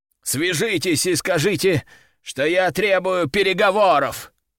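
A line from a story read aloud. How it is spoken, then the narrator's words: Groaning. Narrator (Russian): простонал правитель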